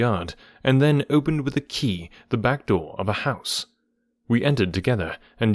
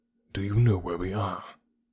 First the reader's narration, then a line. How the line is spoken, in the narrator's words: he whispered